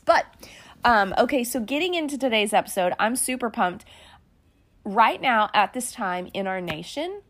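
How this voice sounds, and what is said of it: Dry, slightly weird-sounding voice. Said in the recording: “forgive my voice. If I sound a little weird, I'm getting over a cold. So I'm just in that dry part of that. And so if I sound funny”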